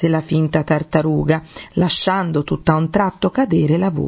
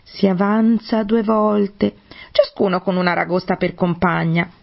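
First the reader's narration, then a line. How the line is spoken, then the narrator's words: Griffin exclaiming. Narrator (Italian): esclamò il grifone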